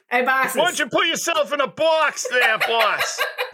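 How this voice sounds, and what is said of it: Put-on Boston accent. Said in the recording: “That is my Boston accent.”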